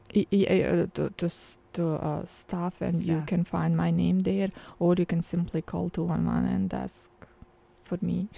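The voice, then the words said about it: Speaks with a non-native accent. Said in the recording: “the lady with the accent. ... The lady with the accent.”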